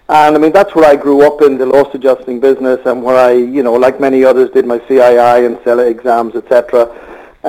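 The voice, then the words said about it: Irish accent. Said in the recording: “I'm not able to disguise the accent, so I am Irish, as most people will gather very quickly”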